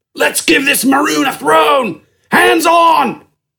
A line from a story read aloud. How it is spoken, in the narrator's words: he yelled over the din around him